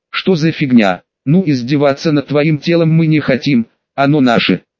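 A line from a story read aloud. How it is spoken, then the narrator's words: Plain. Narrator (Russian): сказала Луна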